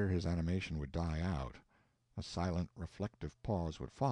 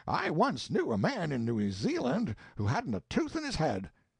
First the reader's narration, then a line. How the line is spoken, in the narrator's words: he would say eagerly, excitedly